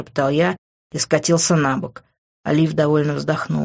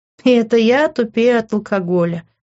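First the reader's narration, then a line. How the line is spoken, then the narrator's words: Laughing. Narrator (Russian): рассмеялась она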